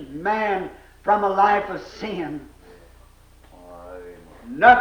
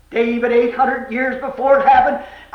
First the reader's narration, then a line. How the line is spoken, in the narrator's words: cried the very voice that he cried in Calvary